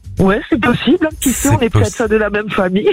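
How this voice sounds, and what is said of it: Bas-Rhin Alsatian French accent. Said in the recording (French): “Ce mignon accent du Bas-Rhin”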